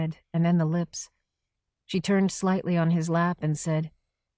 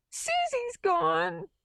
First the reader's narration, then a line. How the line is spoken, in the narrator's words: she sobbed